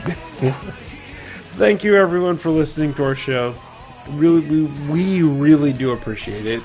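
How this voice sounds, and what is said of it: Slurred, drunk-sounding speech. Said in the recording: “No matter how slurry my voice is right now ... And he's drunk ... I'm kind of mad at myself that I'm slurry right now”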